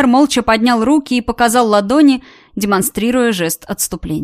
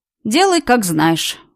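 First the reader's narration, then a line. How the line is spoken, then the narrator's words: Sighing. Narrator (Russian): вздохнул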